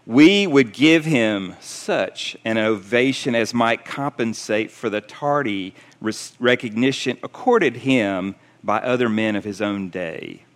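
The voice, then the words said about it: Attempted British accent. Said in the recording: “in his British accent, I can't do his accent, ... maybe I'll try.”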